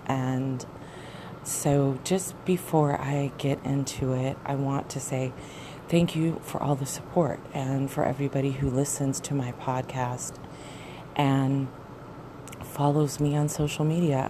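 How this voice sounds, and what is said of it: Slightly shaky voice. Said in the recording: “My voice is a little bit shaky ... I just woke up. I haven't used my vocal cords in several hours and it's cold ... the shakiness of my voice”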